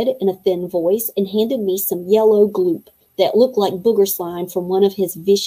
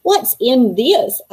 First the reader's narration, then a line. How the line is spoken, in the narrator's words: I asked, burping loudly